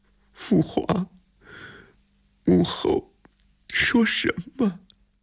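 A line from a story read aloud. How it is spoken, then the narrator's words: Holding back sobs. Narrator (Chinese): 李承乾忍住了哭声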